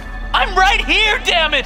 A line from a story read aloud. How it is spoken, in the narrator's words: She screams